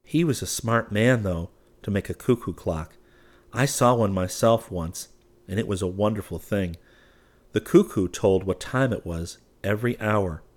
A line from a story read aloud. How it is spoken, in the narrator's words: Chubbins said to them gravely